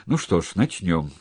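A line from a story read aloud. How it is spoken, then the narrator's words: Sigh. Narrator (Russian): вздохнул Громов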